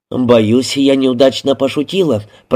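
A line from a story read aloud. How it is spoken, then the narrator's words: Muttering. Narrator (Russian): пробормотала Трой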